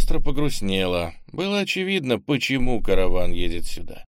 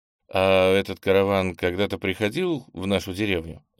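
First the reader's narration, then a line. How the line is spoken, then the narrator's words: Thoughtful question. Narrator (Russian): задумчиво спросил Кенни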